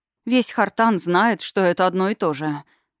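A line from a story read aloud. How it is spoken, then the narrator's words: Bewildered. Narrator (Russian): растерянно пожала плечами Версалика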